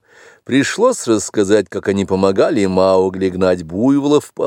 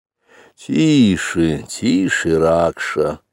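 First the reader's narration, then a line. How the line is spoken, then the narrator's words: Lazy remark. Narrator (Russian): лениво заметил отец-волк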